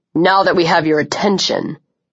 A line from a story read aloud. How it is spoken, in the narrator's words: he snarled